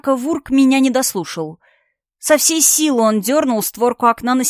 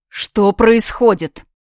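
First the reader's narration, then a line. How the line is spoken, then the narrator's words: Booming voice from above. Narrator (Russian): Прогремел над нами голос Астора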